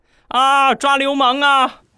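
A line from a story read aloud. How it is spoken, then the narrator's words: Girls screaming loudly. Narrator (Chinese): 旁边所有的女孩子都大声的喊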